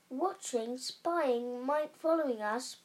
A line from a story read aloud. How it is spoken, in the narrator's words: muttered Uncle Vernon Ridley